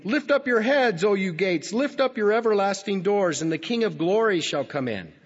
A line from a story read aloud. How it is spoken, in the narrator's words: So they shout out to the watchman again